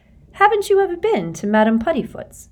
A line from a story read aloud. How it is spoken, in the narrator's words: She said brightly